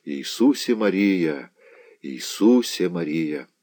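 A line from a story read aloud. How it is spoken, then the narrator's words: Faint moan, barely moving lips. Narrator (Russian): тихо простонал, едва шевеля посинелыми устами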